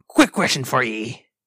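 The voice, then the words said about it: Pirate voice. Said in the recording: “we're fucking failing on voices today ... It's me International Talk Like a Pirate Day ... You are a pirate!”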